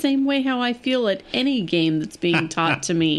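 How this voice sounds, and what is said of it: Usual voice. Nothing is said of it.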